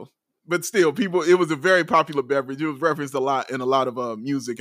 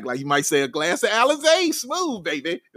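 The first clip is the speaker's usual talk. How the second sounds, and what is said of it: Stacey King impression. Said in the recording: “That was a pretty good Stacey King impression right there, buddy.”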